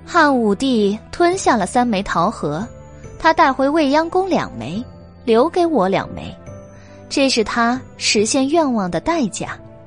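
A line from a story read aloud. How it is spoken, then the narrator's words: Slow, measured. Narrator (Chinese): 白姬缓缓的说道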